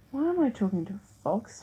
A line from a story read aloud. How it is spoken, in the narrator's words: Florida sighed